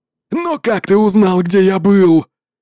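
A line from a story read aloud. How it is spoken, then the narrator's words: Furious demon shouting. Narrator (Russian): демон в крови яростно кричал Чэню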